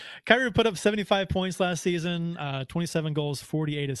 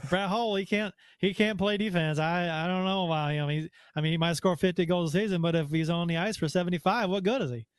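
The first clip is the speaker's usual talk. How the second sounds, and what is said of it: Put-on Southern accent. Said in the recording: “when you make a Southern accent, it's always in an insulting manner”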